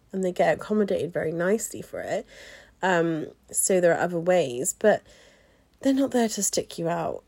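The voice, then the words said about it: English West Country twang. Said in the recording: “apparently I have an accent ... for me in Swindon, we're very country, I would say. So we have a country twang.”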